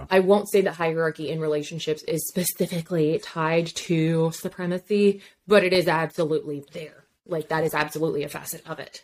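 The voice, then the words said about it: Breathless, running out of air. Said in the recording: “I ran out of breath.”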